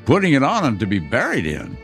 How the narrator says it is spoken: replied the woman with a laugh

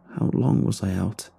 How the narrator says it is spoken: mumbled

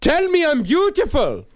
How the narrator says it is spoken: he shouted

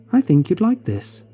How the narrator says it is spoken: my mother excitedly told me

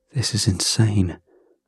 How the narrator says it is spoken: I said under my breath

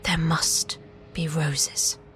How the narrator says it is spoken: Violet whispers

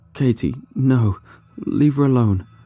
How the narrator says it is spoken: the subject cried as the thrashing became less violent and he slowly drifted into unconsciousness

